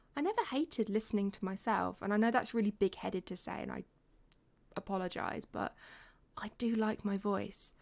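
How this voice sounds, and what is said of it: English accent, mixed regional influences. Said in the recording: “I think I sound really English, but I've had people think I'm from Australia before ... I have a bit of amalgamation of different accents from places that I've lived”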